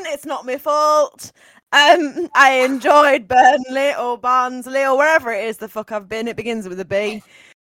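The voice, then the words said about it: Put-on Barnsley accent. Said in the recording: “That's the Burnley accent I was asking of you ... Barnsley, not Burnley.”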